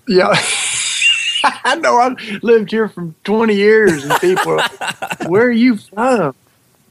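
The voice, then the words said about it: Southern US accent. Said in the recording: “moved out of the South but still retain their accents ... like a southern accent”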